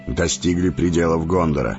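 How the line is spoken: Curt, clipped. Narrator (Russian): отрывисто бросил маг

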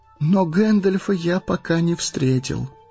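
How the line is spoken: Sad. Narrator (Russian): грустно сказал Фродо

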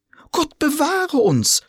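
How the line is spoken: Women screaming. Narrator (German): schrien die Fräulein

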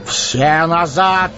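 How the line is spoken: Shout. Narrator (Russian): крикнул Гэндальф

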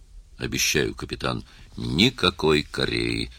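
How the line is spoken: Solemn declaration. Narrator (Russian): торжественно заявил

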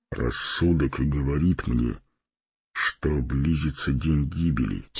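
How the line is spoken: Quiet. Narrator (Russian): тихо молвил Фарамир

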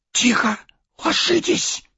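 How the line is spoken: Hissing whispered command. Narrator (Russian): свистящим шепотом приказал Арагорн

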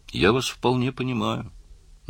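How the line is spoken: Soft, gentle. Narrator (Russian): мягко сказал Карл

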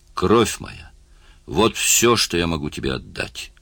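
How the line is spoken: Exclaimed. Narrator (Russian): воскликнул он

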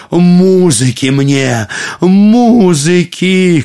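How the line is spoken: Emperor shouting. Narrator (Russian): кричал император

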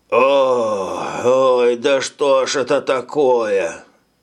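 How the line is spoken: Moaning. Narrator (Russian): стонал он

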